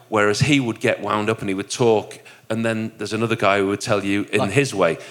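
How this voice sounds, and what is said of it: Broad Yorkshire accent. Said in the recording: “my broad Yorkshire accent”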